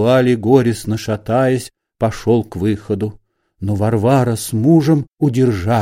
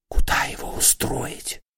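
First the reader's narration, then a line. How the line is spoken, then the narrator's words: Whispering. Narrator (Russian): шептала Варвара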